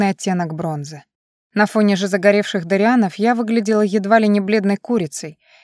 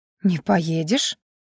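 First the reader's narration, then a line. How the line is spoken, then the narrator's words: Forced, hesitant question. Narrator (Russian): Коко понадобилось несколько секунд, чтобы выдавить из себя этот вопрос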